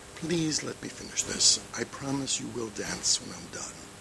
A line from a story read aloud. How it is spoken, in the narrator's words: cooed